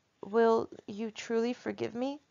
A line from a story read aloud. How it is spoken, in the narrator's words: I said